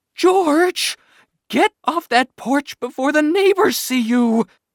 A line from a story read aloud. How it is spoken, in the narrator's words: my mother shrieked